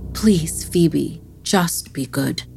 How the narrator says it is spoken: simply sighed and said

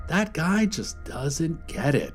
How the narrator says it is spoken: he said, shaking his head sadly

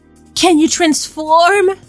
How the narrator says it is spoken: She moaned

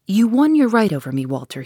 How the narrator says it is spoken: said

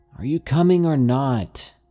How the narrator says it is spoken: Grace shouts

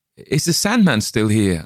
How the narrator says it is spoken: I stammered

